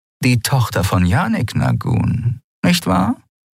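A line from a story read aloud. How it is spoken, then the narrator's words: Purring. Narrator (German): schnurrte sie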